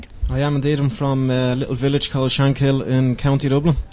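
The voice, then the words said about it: Irish accent. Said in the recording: “native Irish ... I love your accent.”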